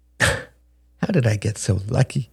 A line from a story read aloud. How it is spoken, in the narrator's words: Beatrice laughed